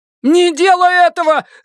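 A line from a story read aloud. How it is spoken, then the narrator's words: Shouting. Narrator (Russian): закричал Гарольд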